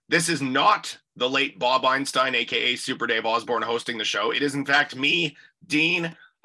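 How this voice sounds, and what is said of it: Rough, congested voice from a cold. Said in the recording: “I am dying. I have a cold. ... You sound like Wolfman Jack.”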